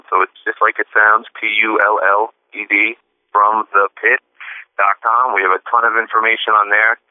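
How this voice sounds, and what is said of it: Speaks with a noticeable regional accent. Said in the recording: “my accent gets a little funny with it”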